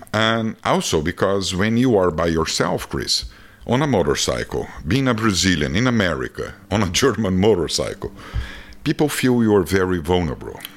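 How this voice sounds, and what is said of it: Brazilian accent. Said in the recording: “people love my accent ... it's the, a good accent. The Brazilian's a good accent ... the longer I live here, the worse the accent get”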